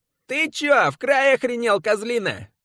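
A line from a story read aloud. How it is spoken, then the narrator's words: Nasal energetic drawl. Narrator (Russian): гнусаво и протяжно, но энергично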